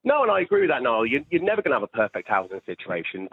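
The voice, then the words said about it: British accent. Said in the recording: “even in the UK, which I'm assuming you're from your accent”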